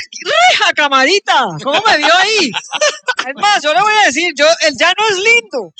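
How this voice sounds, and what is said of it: Put-on regional Colombian accent. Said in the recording (Spanish): “se le fue el acento ... A mí se me pegan todos los acentos.”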